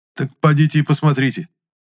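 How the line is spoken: Exclaimed. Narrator (Russian): воскликнул я

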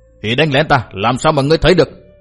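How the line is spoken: Furious shouting. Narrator (Vietnamese): Cát Đạt Tổ cả giận quát tháo

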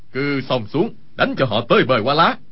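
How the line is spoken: Loud shout. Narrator (Vietnamese): Khưu Sử Cơ quát lớn

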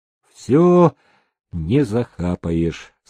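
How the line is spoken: Calm reply. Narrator (Russian): спокойно отозвался он

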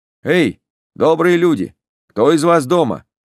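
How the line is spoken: Loud question. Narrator (Russian): спросил я громко

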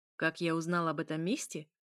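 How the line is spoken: Snorting. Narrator (Russian): хмыкнул вампир

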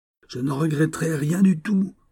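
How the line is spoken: Furious exclamation. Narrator (French): s'écria le lieutenant, les yeux injectés de sang

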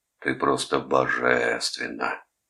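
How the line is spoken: Stunned drawl. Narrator (Russian): протянул потрясенный Вилли

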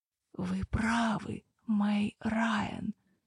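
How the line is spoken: Slightly cracked whisper. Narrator (Russian): чуть натреснутым голосом прошептал он

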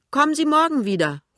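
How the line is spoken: Woman calling back. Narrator (German): ruft die Frau zurück

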